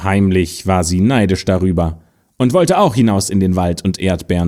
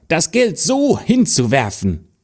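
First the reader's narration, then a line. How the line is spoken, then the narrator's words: Stepsister calling out. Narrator (German): rief die Stiefschwester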